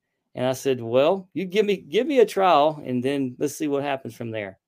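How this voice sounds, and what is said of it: Usual voice. Nothing is said of it.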